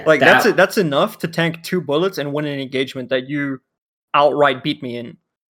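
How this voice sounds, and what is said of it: Speaks with a noticeable accent. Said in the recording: “the one with the accent”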